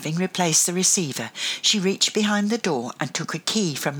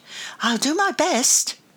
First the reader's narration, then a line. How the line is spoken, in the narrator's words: exclaimed